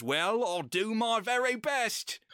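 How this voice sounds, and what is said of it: Put-on British accent. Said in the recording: “We need to get you to do a British accent for a whole episode”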